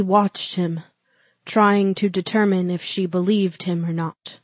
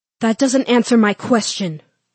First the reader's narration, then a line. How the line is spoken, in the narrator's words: she snapped